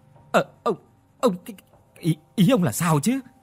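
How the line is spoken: Stammering. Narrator (Vietnamese): Mụ Tôn lắp bắp

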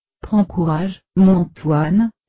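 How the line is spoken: Moved, emotional voice. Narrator (French): lui dit-elle d'une voix émue

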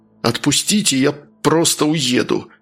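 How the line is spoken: Through gritted teeth. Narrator (Russian): процедил сквозь зубы Луканов

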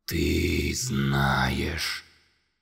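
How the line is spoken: Low threatening voice. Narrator (Russian): низким угрожающим голосом сказала

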